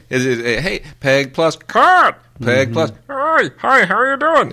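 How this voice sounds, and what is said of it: Imitates a cartoon character's voice. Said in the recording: “the voice for Cat is just some guy going ... that's a guy doing that voice ... Any guy can do that voice”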